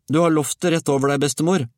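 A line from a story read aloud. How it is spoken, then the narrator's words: Warning shout. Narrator (Norwegian): ropte Georg advarende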